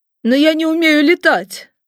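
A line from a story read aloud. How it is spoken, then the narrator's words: Sudden plaintive drawl. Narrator (Russian): вдруг жалобно протянул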